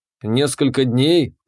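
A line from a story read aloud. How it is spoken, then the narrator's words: Growled. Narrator (Russian): прорычал я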